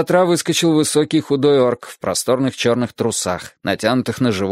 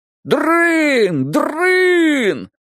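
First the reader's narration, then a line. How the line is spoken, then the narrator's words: Yelling with crowd. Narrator (Russian): Грым заорал вместе со всеми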